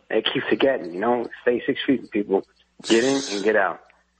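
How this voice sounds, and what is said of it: Noticeable accent. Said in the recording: “your accent”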